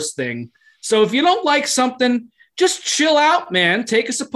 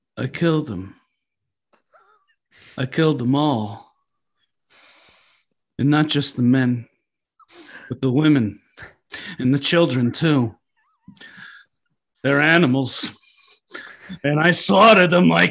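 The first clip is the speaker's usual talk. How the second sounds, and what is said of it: Impression of a film character's voice. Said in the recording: “you have an impeccable impersonation of Anakin Skywalker ... give us one more Anakin”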